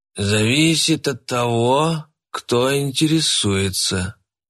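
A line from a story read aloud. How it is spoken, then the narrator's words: Toothless mumbling. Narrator (Russian): прошамкал он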